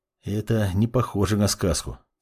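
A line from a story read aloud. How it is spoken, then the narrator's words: Quiet reply. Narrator (Russian): тихо отозвался Жак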